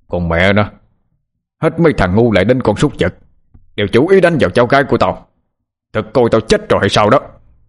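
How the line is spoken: Angry echoing shout. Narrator (Vietnamese): âm vang tiếng hét giận dữ của ông Khánh

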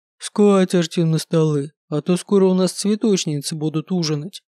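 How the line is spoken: Deep booming. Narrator (Russian): прогудел Брогл

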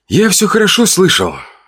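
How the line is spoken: Hoarse with restrained fury, despair. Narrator (Russian): сказал я, и голос мой звучал хрипло от сдержанной ярости и отчаяния

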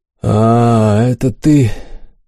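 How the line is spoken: Tired drawl. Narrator (Russian): устало протянул император

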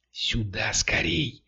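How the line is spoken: Whisper. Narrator (Russian): шепнул Кирилл

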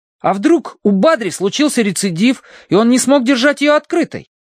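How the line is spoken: Exclaiming. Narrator (Russian): воскликнул Колин

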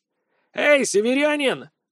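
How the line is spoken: Distant shout. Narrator (Russian): крикнули с той стороны

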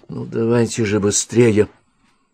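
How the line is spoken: Pleading. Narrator (Russian): взмолился он

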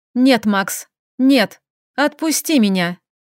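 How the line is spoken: Calm speech. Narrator (Russian): Говорила я уже вполне спокойно

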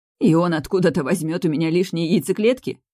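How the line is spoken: Laughing through tears. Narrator (Russian): Подруга хохотнула сквозь слезы

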